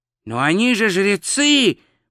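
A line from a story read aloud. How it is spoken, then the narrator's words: Wail. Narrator (Russian): взвыл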